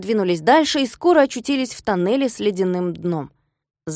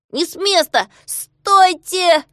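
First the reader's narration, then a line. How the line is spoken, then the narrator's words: Shouted. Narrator (Russian): закричал Знайка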